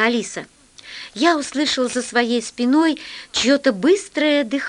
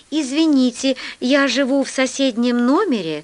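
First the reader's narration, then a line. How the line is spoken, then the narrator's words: Plain. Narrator (Russian): сказал толстяк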